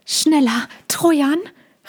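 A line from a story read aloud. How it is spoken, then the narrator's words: Very quiet call. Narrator (German): rief Mina, aber nur ganz leise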